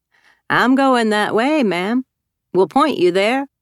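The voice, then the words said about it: Southern American accent. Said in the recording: “his southern accent”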